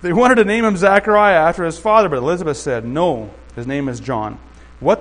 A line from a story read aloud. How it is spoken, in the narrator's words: they exclaimed